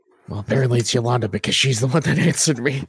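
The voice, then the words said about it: Whispering. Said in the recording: “Who am I whispering to? ... maybe that's why you're whispering.”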